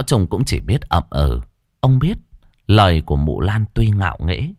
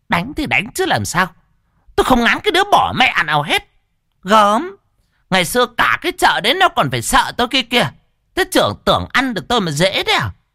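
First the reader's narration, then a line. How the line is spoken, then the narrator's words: Scornful sneer. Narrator (Vietnamese): Mụ Lan cười khẩy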